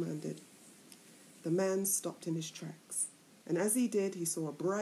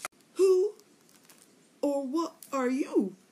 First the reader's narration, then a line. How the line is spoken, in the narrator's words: the foolish man cried